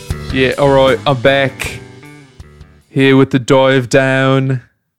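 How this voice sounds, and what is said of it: Bad put-on British accent. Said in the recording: “your British accent is so bad... It's really, really bad... It's so unrealistic”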